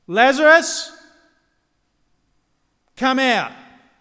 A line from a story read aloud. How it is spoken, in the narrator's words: Jesus called out in a loud voice